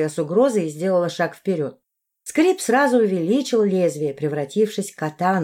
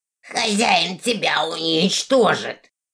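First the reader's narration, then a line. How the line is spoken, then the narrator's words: Creaky creature voice. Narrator (Russian): Проскрипело мохнатое зеленое недоразумение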